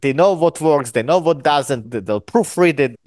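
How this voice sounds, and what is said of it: Non-native English accent. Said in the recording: “As you can hear from my accent, English is my third language.”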